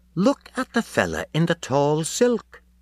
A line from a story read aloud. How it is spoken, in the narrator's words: When all agog Miss Deuce said eagerly